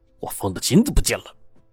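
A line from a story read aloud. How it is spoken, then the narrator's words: Furious, low-voiced. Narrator (Chinese): 柴老板的脸色阴沉沉的，看着四周无人，就非常恼怒的对着二当家说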